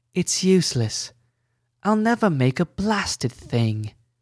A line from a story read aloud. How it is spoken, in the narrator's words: Glint sighed